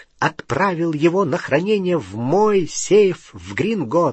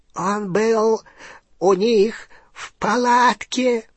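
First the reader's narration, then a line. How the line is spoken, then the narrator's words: Hoarse rasp. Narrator (Russian): прохрипел Фенрир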